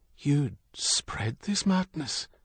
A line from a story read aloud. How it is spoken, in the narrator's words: Doheny whispered